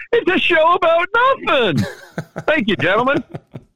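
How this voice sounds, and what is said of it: High-pitched impression of sitcom character. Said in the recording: “He just went Seinfeld on me ... he went with the high voice. Going for Jerry there. ... He does pretty good impersonations. ... I'm going to give him a D- for the Jerry.”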